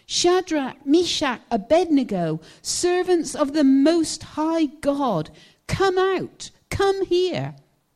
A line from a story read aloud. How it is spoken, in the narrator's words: Nebuchadnezzar shouted